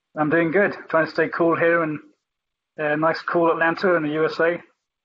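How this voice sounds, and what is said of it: Non-Atlantan accent. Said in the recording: “that is certainly not an Atlantan accent”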